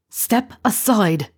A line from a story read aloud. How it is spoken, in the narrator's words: Remus growled